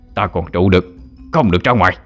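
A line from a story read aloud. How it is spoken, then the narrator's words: Shouted loudly. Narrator (Vietnamese): thầy Tám đã kịp quát lớn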